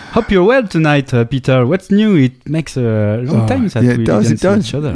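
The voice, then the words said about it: French-accented English. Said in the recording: “I'm the guy with the French accent. ... He's the guy with the French accent”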